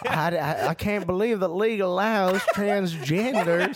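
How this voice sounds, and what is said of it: Put-on American southern accent. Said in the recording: “Why are you giving Cincinnati a southern accent?”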